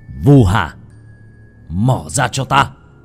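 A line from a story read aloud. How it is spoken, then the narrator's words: Shouted. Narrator (Vietnamese): Bác cổ quát lên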